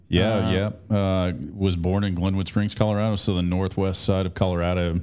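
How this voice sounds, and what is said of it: Radio-quality voice. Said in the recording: “you've got a radio voice.”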